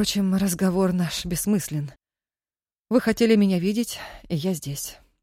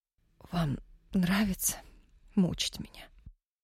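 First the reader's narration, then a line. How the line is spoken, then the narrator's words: Choked whisper. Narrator (Russian): Шепотом мешал вставший в горле ком, осведомилась Нина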